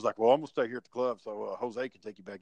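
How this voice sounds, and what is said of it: Imitates another person's deep voice. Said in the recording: “Chad had that deep voice”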